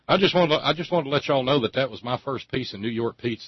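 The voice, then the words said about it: Non-New York regional accent. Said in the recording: “I hauled my accent out ... where's he from? ... That don't sound like the Lower East”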